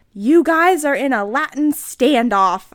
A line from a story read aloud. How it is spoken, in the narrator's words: I shouted despairedly